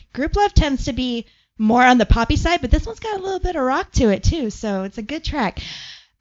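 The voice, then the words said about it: Hoarse, fading voice. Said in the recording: “I'm also losing my voice.”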